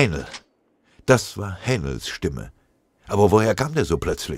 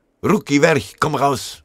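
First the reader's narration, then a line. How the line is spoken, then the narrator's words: Familiar voice roaring. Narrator (German): Eine ihm bekannte Stimme brüllte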